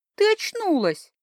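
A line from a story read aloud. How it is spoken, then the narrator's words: Joyful announcement. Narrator (Russian): радостно возвестила она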